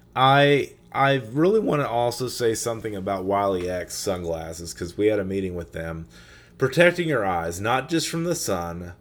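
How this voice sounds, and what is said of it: Strained, failing voice. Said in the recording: “I'm losing my voice, so forgive me if I'm tweaking here every once in a while with my voice”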